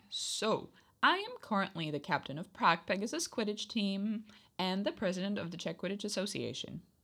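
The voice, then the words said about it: Non-native speaker, American-influenced accent. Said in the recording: “If you're a native speaker, yeah, of course you can tell from my accent ... I am not American ... Yes, this is my accent from watching movies and playing video games”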